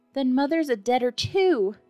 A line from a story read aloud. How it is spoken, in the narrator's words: cried the little girl, sobbing bitterly